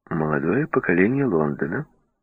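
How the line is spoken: Informed in an undertone. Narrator (Russian): вполголоса сообщила

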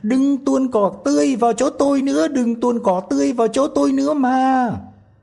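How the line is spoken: Tiny voice crying out. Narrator (Vietnamese): tí hon lại la lên

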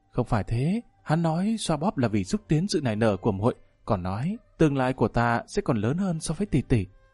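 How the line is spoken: Blushing soft voice. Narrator (Vietnamese): Nhị tiểu thư sắc mặt đỏ bừng khẽ nói

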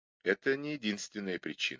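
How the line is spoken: Plain. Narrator (Russian): ответил Мейсон

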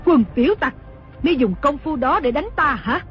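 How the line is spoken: Furious shouting. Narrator (Vietnamese): Đồng mổ cả giận quát mắng

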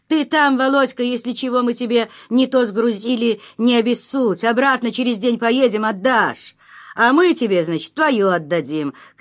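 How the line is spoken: Shouting from moving train. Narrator (Russian): кричал Михалыч через окно движущегося поезда

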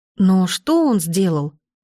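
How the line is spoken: Exclamation. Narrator (Russian): воскликнула я

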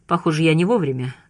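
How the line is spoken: Sigh. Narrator (Russian): вздохнул

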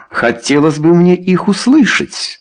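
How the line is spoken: Exclaiming. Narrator (Russian): воскликнул он

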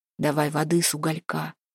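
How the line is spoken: Whispered. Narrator (Russian): шепнул он Еленке

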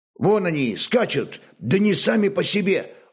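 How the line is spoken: Old man exclaiming. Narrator (Russian): воскликнул старый мореход Буревей

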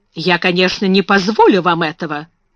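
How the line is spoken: Sharp speech. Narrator (Russian): резко сказала

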